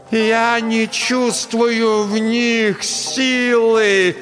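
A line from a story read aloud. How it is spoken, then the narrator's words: Shouting. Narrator (Russian): Под конец фразы Настя снова закричала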